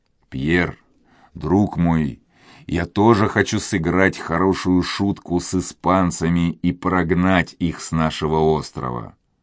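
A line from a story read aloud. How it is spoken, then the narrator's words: Quiet. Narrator (Russian): тихо сказал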